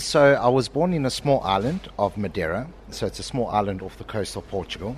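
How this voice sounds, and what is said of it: South African accent. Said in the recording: “I'm getting South African accent”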